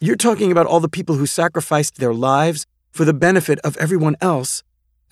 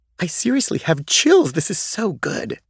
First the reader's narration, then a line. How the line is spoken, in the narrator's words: exclaimed Gigi